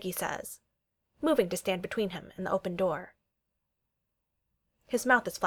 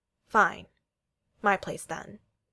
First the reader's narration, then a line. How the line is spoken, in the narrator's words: he says, his voice firm and calculated, but not presumptuous